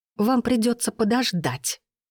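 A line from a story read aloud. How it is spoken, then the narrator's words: Hissed. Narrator (Russian): прошипела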